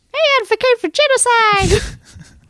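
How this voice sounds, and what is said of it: Squeaky Elmo-like character voice. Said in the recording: “almost very Elmo ... This is a squeaky voice.”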